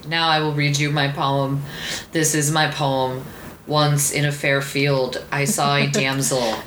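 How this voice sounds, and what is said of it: Flat monotone poetry-reading voice. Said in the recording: “monotone a little bit”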